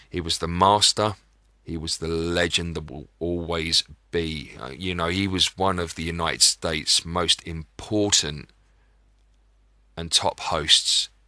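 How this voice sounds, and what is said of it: British accent. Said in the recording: “my rather lovely British accent”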